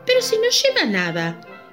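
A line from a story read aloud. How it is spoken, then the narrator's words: Sudden child's exclamation. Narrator (Spanish): exclamó de pronto un niño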